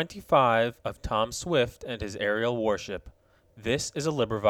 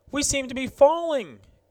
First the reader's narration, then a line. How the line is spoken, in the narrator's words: exclaimed Lieutenant Marbury